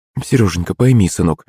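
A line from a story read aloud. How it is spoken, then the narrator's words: Sighing mother. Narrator (Russian): вздохнула маман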